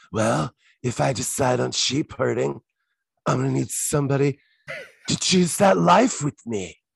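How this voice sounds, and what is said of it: Imitates another person's voice. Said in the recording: “Is that your Andy impression? ... It was the way he said that line. ... And that was not in an accent.”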